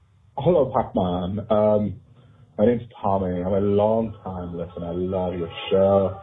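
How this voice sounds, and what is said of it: Cutesy fake accent. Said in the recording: “calling with a cutesy little fake accent”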